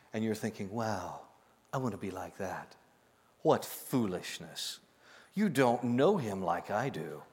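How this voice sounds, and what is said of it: Impression of a former mentor's voice. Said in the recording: “let me do my Phil Hook voice.”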